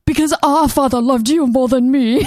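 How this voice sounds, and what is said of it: Overwrought put-on English accent. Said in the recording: “overly ... wrought English accent. ... out Englishing accenting”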